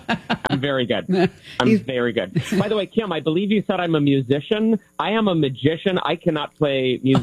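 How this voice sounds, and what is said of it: New Jersey accent. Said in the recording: “That was my New Jersey ... accent that just came out.”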